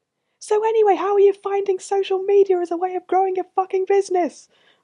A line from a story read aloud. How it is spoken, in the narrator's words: wanted to scream over the sirens and conversational lull